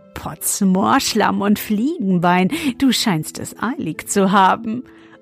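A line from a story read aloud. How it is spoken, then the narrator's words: Laughing until choking. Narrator (German): er lachte, bis er sich verschluckte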